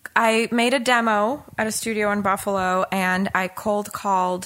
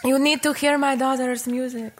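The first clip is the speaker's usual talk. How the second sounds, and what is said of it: Put-on immigrant accent. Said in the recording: “I faked the accent because she's an immigrant.”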